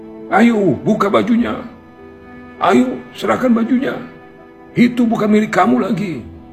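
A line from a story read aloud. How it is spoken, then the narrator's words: Angry crowd shouting together. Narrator (Indonesian): Orang-orang yang sedari tadi berkerumun dan geram dengan kelakuan si lelaki sombong, rami-rami berteriak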